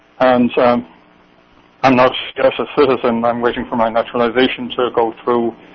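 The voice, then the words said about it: Irish accent, strong brogue. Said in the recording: “your Irish accent, which is wonderful ... you've kept the brogue”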